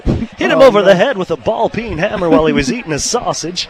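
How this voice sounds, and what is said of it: Shaky Southern movie-character voice. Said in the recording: “He's down south and he's shaking ... with his voice shakes ... Louisiana ... I don't even think that's close.”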